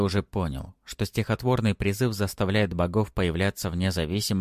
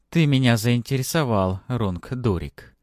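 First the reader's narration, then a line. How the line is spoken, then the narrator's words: Melodic, deep, breathy. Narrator (Russian): Мелодичным, грудным голосом с придыханием произнесла тень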